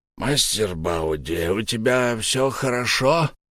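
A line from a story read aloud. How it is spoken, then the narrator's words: Hoarse rasp. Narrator (Russian): прохрипел он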